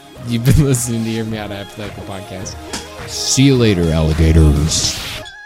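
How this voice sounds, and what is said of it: Announcer voice. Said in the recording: “kind of tone change there ... Like announcer voice? ... Yeah, it was pretty good”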